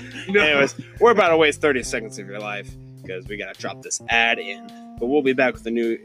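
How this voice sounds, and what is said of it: Usual voice. Nothing is said of it.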